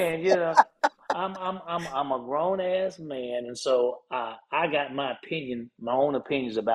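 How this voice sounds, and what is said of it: Usual voice. Nothing is said of it.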